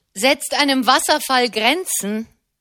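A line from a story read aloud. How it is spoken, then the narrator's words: Heated shout. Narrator (German): rief einer der Brüder hitzig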